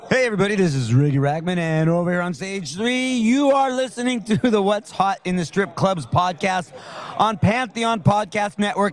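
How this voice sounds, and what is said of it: Strip club DJ announcer voice. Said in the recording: “let me do it as a strip club DJ voice”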